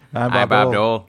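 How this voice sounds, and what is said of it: Imitates another person's voice. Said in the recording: “your impersonation of Bob Dole”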